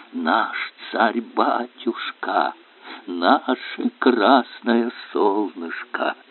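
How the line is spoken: Reverent crowd whisper. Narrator (Russian): его встречают благоговейным шепотом

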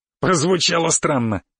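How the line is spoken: Snorting remark. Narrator (Russian): хмыкнул

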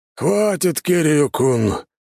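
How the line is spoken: Heavy weary exhale. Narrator (Russian): тяжело выдохнул мой грузный собеседник

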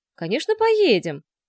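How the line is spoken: Overly cheerful reply. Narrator (Russian): Слишком уж бодро откликнулся Лешка

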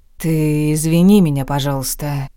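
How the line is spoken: Sighing. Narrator (Russian): вздохнул он

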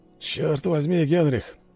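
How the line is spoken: Grumbling. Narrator (Russian): проворчал Густав

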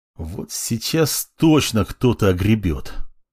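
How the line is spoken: Angry hiss under breath. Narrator (Russian): Зло прошипел себе под нос

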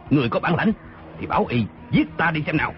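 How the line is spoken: Angry reply. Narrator (Vietnamese): Tư Mã Lâm giận dữ đáp

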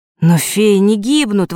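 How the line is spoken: Exclaiming. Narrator (Russian): воскликнул Фэш

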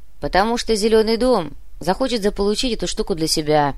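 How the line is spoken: Grumbled. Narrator (Russian): проворчал более опытный Муба

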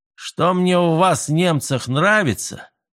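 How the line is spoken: Loud, confiding. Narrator (Russian): доверительно и громко проговорил он

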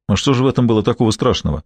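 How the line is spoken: Businesslike tone. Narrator (Russian): Гамаш говорил деловым тоном

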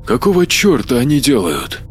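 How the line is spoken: Whisper. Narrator (Russian): прошептал Маркус

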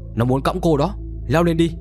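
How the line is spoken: Loud shout. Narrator (Vietnamese): hét lớn

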